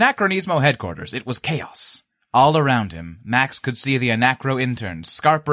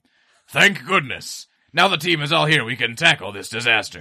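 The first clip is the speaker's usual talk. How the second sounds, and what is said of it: Imitates another person's voice. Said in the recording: “Sounds just like Noel.”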